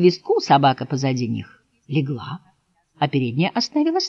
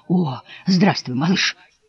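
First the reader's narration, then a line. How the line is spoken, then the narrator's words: Old sheep, breathy greeting. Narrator (Russian): выдохнула старая овца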